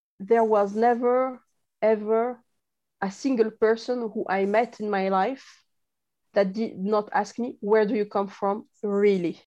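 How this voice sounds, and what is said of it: European accent. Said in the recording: “She has this lovely accent that sounds quintessentially European.”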